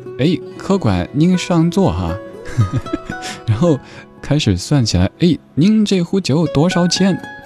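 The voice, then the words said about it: Imitating Tong Xiangyu's accent. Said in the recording (Chinese): “这句歌词让我想到佟湘玉佟掌柜拿着算盘...这什么口音哈”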